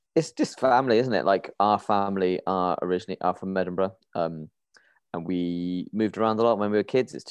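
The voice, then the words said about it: English accent. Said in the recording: “you've got a very English accent ... we sound like we should be West Ham fans”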